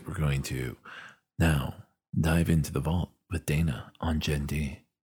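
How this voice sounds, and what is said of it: Dramatic announcer-style vault voice. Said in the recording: “give me a vault voice”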